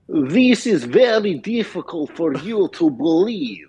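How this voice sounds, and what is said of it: Put-on Russian accent. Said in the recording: “I speak fluent Russian ... That's so good ... you talk from back of throat”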